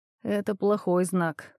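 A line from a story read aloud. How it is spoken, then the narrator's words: Muttering. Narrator (Russian): пробормотал я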